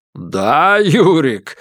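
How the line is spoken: Chuckling. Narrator (Russian): хохотнул Конторович

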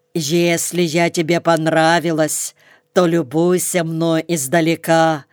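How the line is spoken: Growling. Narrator (Russian): говорило ее рычание

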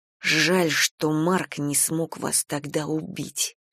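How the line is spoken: Hissed. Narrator (Russian): прошипела Галя

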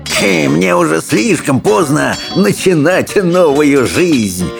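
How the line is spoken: Bursting into laughter. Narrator (Russian): расхохотался Элвин

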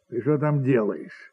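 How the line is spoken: Plain question. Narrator (Russian): спросил барин

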